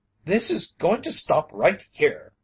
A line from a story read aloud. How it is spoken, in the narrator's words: he cried furiously